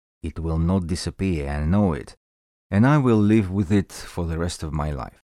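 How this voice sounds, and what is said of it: Heavy thick Russian accent. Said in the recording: “a very strong Russian accent. Not just strong, very heavy. ... my heavy and thick accent”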